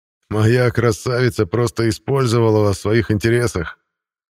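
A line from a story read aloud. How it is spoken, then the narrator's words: Laughing loudly. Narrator (Russian): расхохотался Контериил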